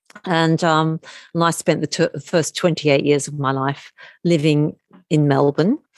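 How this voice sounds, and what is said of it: Australian accent. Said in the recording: “as you can probably hear from my accent, I'm Australian.”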